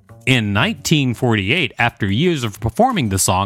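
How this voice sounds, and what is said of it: Usual voice. Nothing is said of it.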